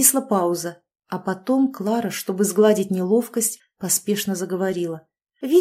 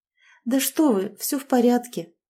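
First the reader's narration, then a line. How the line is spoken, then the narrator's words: Sad. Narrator (Russian): грустно ответила Клара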